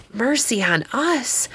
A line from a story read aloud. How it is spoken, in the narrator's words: whispered Bacchus to her husband